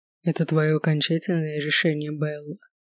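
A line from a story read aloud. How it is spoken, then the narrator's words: Quiet, slightly hoarse question. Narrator (Russian): спросил он тихим, немного хриплым голосом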